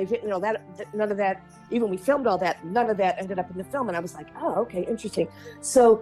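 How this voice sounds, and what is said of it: Usual voice. Nothing is said of it.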